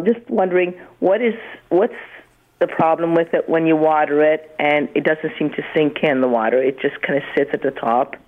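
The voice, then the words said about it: Voice sounds congested from cold. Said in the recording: “I've got a cold. I hope I don't break into a cough”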